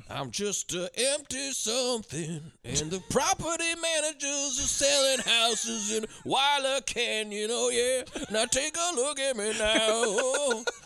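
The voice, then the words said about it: Sings imitating another person's voice. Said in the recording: “Give him Phil Collins a run for his money over here. ... That's my Phil Collins impression. ... More soulful than Phil Collins himself.”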